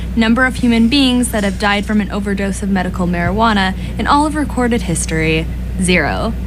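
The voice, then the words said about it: Polished radio announcer voice. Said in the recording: “you have a nice radio voice... You have a really good radio voice”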